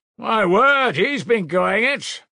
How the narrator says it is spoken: shouted

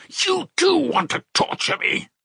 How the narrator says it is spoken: he screamed with such bitter irritation, such despair

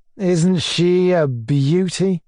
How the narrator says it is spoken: he drawled

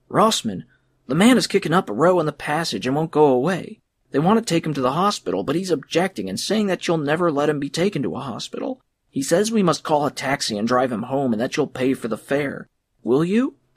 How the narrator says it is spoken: Giacomo agitated by his long wait, cried

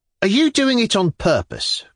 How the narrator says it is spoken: cried Madame Virginsky wrathfully

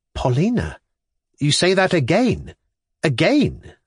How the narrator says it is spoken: exclaimed

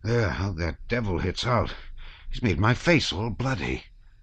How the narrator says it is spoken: said he in a frightened whisper

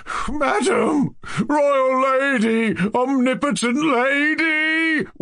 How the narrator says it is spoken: wailed Lebedev, crawling on his knees

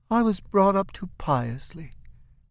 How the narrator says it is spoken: Bambus sighs

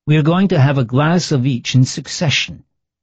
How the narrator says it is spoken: said Monfiori, in his melancholy, slightly hollow voice

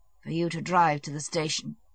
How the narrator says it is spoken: Levin said gloomily

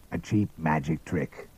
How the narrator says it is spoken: muttered Father Stone

